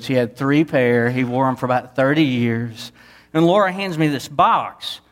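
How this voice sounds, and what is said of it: Southeast Texas accent. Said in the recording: “lived in a small town in southeast Texas. You can't tell from my accent, I live there too, right?”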